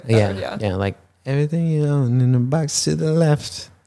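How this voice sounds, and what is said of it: Sung impression of a pop singer. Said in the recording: “That's exactly like, how she sounds. ... my Beyonce impression. ... Just for the voice.”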